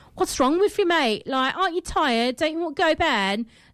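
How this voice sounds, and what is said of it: Imperfect put-on Manchester accent. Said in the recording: “I'm not doing the accent properly at the moment ... Jam is from Manchester, I think ... I just murdered your accent”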